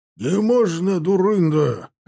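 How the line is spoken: Barked. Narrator (Russian): рявкнул Клушин

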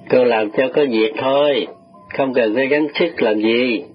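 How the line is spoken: Lowered voice. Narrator (Vietnamese): chú hạ giọng

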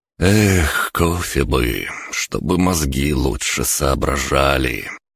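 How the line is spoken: Dreamy drawl. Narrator (Russian): Мечтательно протянул я

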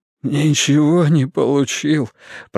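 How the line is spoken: Sobbing mumble. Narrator (Russian): пробормотал он, всхлипывая

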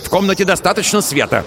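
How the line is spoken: Irritated shout. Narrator (Russian): раздраженно крикнул он

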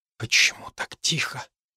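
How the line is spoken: Whisper. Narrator (Russian): прошептала Хлоя

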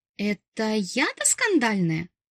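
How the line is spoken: Gasping, indignant mewl. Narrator (Russian): Охнув, возмущенно мявкнула я

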